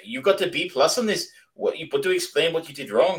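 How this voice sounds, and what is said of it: Put-on accent, sounding somewhat Russian. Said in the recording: “I shouldn't do the accent, but that's genuinely the accent she has... It kind of came off Russian... I did not do accents well”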